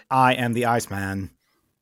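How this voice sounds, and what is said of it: Stephen Hawking synthesized-voice impression. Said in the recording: “Is it true that Stephen Hawkins did the voice for Val Kilmer? ... do the voice. Do the voice.”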